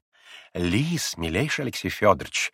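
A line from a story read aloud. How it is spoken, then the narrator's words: Close whisper in ear. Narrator (Russian): зашептала почти на ухо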